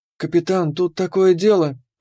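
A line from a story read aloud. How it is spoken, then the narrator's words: Timid. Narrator (Russian): робко начала Кира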